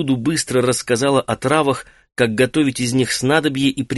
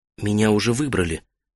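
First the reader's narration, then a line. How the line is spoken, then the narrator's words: Whisper. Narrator (Russian): прошептала Джинга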